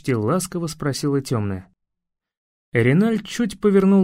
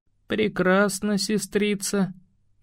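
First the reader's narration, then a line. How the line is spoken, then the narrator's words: Muffled reply. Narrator (Russian): глухо ответил он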